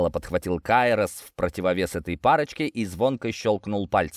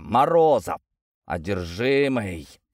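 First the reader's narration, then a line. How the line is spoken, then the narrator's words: Hiss. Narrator (Russian): прошипел второй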